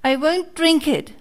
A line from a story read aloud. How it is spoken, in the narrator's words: cried Pinocchio, bursting out crying